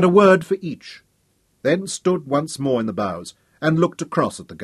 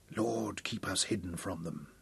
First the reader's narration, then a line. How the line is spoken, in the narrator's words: he whispered